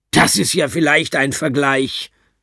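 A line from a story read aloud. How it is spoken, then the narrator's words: Beside herself, shouting. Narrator (German): ruft meine Mutter völlig außer sich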